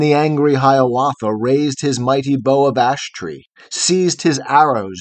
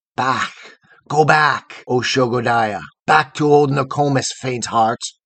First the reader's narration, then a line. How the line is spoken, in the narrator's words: they answered, hissing fiercely, with their fiery breath made answer